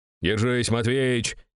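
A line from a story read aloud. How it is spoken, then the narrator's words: Shouting in face. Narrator (Russian): крикнул в лицо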